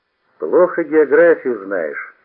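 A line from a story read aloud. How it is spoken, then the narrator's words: Stern. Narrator (Russian): сказал я строго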